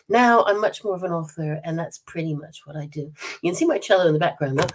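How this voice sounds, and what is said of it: American accent with slight British tinge. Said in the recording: “You can hear it in my voice. I'm still American, you know. But at the same time, I'm half-half because I've got a British accent. A little bit of a British accent”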